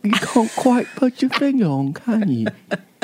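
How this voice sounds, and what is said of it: Put-on British accent. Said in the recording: “my impression... British accent. Chinese Eyes, British accent.”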